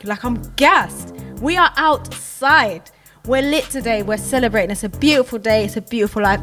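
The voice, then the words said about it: Excited, energetic voice. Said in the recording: “You can hear it in my voice. I'm so excited”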